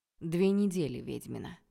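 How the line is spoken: Dry, curt reminder. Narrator (Russian): напомнил владыка сухо

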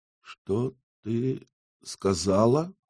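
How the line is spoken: Stunned, forced out. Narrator (Russian): смог выдавить из себя ошарашенный Йенсен

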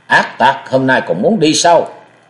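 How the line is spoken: Two voices shouting together. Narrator (Vietnamese): Thôi Thiên Hành và Nam Cung Lượng cùng quát

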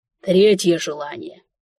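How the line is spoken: Stunned exhale. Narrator (Russian): выдохнул огорошенный моими скромными требованиями монарх

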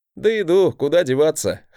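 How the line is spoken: Glad chuckle. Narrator (Russian): хохотнул я, радуясь, что в этот раз мой брат вернулся невредимым и прошедшим испытание

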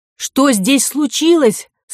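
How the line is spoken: Loud question. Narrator (Russian): спросила она громко

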